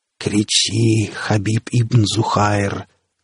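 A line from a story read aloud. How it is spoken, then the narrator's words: Vile hiss over cacophony. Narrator (Russian): прошипел на фоне нескончаемой какофонии мерзкий голос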